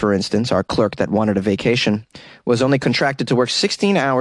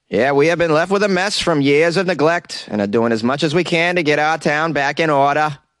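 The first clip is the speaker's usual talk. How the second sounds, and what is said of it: Attempted Maine accent. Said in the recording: “That was my bona fide attempt at a Maine accent.”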